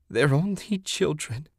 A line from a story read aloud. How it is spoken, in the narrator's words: she sobbed